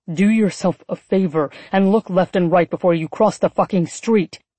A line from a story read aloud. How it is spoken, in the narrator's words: he hissed in annoyance, suddenly looking embarrassed and disturbed